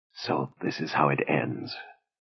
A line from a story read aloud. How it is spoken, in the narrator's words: Aida murmured